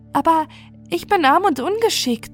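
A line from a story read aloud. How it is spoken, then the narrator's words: Girl whining. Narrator (German): jammerte das Mägdlein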